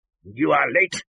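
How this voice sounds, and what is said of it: Angry voice. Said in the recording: “said Scrooge in an angry voice.”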